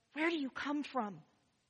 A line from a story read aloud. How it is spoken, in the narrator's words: the mother who would whisper to her so her young son wouldn't hear